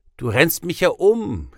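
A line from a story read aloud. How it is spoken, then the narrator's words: Calling out with hearty laughter. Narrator (German): rief und lachte herzlich dabei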